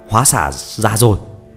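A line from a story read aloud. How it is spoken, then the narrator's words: Loud shout. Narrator (Vietnamese): Phi Phàm mà lớn tiếng hô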